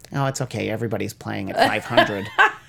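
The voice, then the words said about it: Imitates a sports fan's voice. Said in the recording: “that's my impression of a Cardinals fan”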